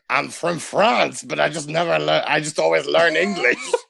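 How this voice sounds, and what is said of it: Put-on French accent. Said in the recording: “Where'd you get the accent? ... they teach me English with a French accent”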